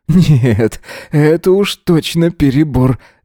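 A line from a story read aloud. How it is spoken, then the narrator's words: Laughing. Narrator (Russian): засмеялся он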